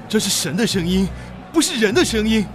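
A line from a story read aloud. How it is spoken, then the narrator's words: Crowd shouting. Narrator (Chinese): 百姓喊着说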